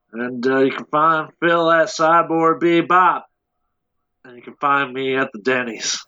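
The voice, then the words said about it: Imitated Southern-accented character voice. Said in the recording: “Is that your old Chris Pratt impression? ... It's just an old Peter. ... he gave Peter Quill a southern accent”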